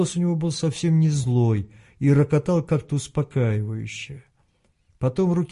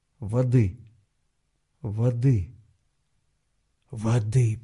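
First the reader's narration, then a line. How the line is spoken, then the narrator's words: Hoarse croak. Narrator (Russian): прохрипел он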